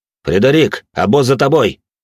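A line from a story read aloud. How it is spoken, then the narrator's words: Shouted. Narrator (Russian): крикнул он дворецкому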